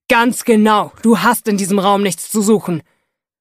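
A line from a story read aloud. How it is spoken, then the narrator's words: Bellowed. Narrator (German): brüllt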